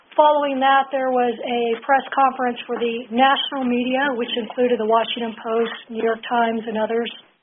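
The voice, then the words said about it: Hoarse, strained, fading voice. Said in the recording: “Excuse my voice. I think I'm losing my voice.”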